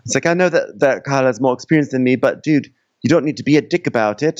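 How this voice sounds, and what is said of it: Put-on British accent. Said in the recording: “my brain is not able to do like a Caribbean accent today. So I'm just going British.”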